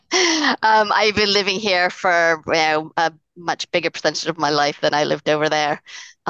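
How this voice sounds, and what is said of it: Posh-sounding non-American accent. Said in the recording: “you got that hoity-toity accent ... I like your accent, by the way. It's a very nice accent.”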